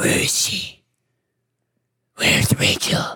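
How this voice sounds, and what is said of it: Usual voice. Nothing is said of it.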